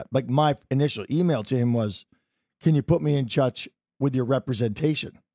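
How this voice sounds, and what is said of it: Strained, worn-out voice. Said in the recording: “I apologize for my voice, ... I'm yelly man in the bar, as you may have noticed last night.”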